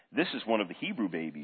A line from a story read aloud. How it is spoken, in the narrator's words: she said